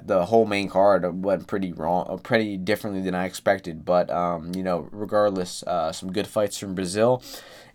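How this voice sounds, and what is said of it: Slightly hoarse voice. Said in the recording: “my voice has been a little hoarse. My allergies are pretty uh pretty bad right now”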